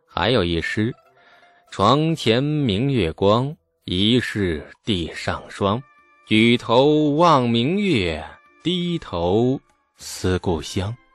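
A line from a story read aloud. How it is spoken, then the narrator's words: Flat, indifferent. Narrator (Chinese): 李素淡淡的说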